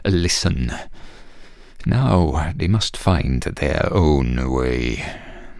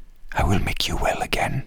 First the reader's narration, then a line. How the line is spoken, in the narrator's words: he whispered